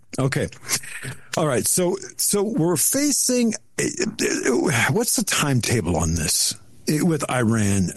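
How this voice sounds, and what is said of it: Weak, slightly off voice. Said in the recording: “My voice is a little bit weak. So if I sound a little bit off”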